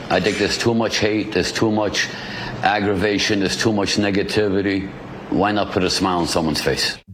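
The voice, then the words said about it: Brooklyn accent. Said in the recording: “love that Brooklyn accent.”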